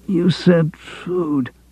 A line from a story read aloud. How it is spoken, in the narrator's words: he rasped accusingly